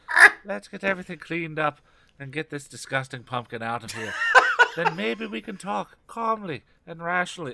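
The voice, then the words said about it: Weak put-on accent. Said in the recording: “this sounded like Michael J. Fox in Back to the Future 3 ... It was not a great accent.”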